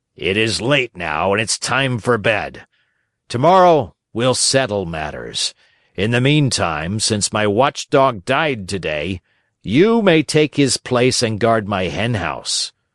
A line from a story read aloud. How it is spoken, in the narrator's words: said to him roughly